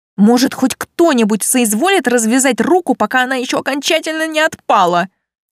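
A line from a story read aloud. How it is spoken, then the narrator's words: Hissing through teeth. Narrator (Russian): Сквозь зубы прошипела я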